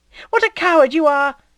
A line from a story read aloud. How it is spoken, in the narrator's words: she cried